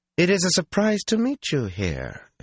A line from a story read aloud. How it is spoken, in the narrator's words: an arrogant, if beautiful woman said coolly